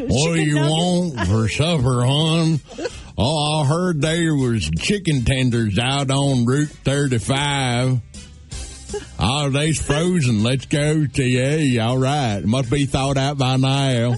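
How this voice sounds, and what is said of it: Two redneck character voices. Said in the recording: “that redneck ... that impression. Two, two, separate rednecks there”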